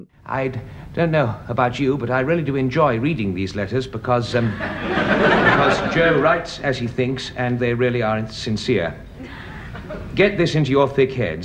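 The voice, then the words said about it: Broad regional accent, reading a letter. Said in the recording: “the way Simon Cadell reads the letters from Joe Maplin ... they're written in this kind of very broad accent.”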